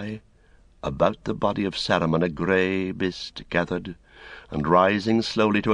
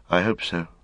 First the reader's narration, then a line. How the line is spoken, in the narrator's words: said Frodo, and sighed